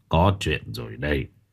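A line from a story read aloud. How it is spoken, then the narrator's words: Grave elderly voice. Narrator (Vietnamese): Cụ nói bằng giọng nghiêm trọng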